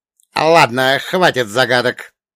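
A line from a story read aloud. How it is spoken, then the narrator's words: Sharp, sullen interruption. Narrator (Russian): резко оборвал, насупившись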